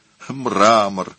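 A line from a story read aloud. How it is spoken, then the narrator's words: Moaned. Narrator (Russian): простонал Лодовико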